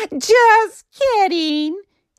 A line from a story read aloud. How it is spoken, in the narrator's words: he giggled